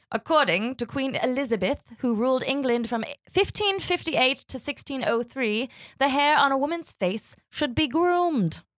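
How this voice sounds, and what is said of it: Put-on English accent. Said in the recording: “It's a great English accent. ... That was awesome. ... I'm going to stop doing it”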